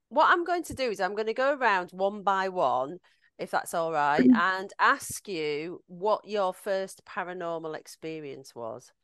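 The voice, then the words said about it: Yorkshire Halifax accent. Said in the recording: “I'm originally from Halifax ... I haven't lost my accent at all, as everybody always tells me”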